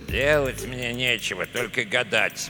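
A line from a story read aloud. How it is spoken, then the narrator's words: Grumbling. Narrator (Russian): проворчал Эдуарда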